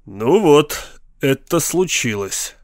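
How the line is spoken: Grim. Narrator (Russian): мрачно заявил Эд Паркс жене

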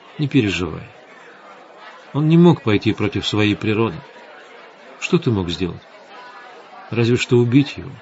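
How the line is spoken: Quiet, soothing voice. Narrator (Russian): Светлана тихо сказала

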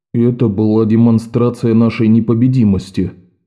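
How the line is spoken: Plain. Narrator (Russian): сказал Амос

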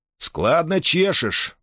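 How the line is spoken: Conciliatory tone. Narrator (Russian): примирительным тоном проговорил

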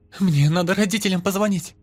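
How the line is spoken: Frightened girl. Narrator (Russian): испуганно заявила девочка

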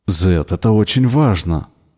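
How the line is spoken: Exclamation. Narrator (Russian): воскликнул Ричард

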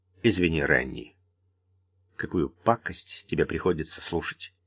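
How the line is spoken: Quiet addition. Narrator (Russian): тихо добавил

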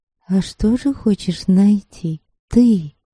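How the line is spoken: Barely audible question. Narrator (Russian): еле слышно спросила она

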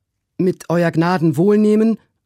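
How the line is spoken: Called out. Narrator (German): rief Trim

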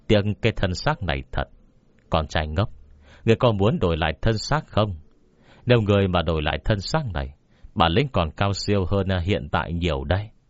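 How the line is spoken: Laugh, pause, muttering. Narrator (Vietnamese): Quy Bất Quy cười một tiếng, hơi dừng một chút rồi lẩm bẩm nói

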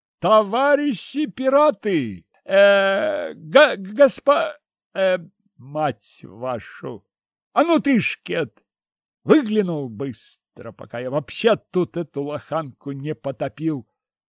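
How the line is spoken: Furious shout. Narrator (Russian): Взбешенно крикнул я

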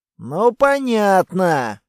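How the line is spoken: Sigh. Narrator (Russian): вздохнул Чеви

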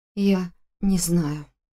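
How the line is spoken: Muttering. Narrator (Russian): пробормотала я

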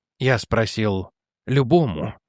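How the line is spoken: Soft repetition. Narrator (Russian): мягко повторил Пуаро

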